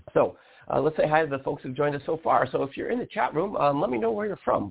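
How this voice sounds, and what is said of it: Scratchy voice from a cold. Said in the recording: “I have a bit of a cold. You might hear my voice is a bit scratchy.”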